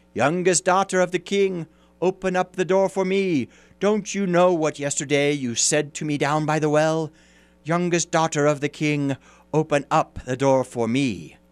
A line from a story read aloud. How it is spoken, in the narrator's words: a voice called out